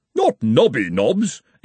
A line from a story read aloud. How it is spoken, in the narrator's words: exclaimed the former dean